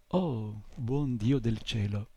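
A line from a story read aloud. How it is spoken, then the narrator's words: Muttering. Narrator (Italian): borbottò soltanto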